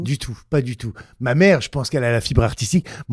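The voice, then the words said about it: Northern French regional accent. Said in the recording (French): “cet accent, je le garde ... revendiquer mes racines ... mon nord natal”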